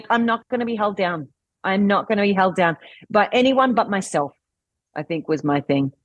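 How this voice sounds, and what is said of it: Australian accent. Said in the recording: “as you can probably hear from my accent, I'm Australian.”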